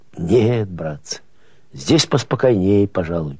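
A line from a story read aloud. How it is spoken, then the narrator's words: Lisping. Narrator (Russian): прошепелявил он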